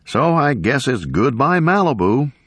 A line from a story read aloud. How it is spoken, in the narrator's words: the anchor said cheerfully